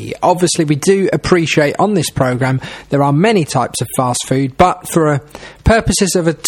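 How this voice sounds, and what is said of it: Usual voice. Nothing is said of it.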